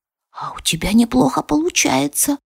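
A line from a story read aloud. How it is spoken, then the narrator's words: Whisper. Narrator (Russian): услышала я шепот мага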